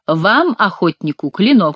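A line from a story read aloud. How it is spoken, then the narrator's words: Plain. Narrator (Russian): сказал он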